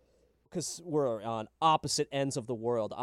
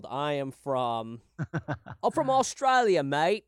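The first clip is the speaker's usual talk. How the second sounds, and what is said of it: Poor Australian accent drifting British. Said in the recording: “I went, like, way British. That was the worst Australian accent ... You started strong.”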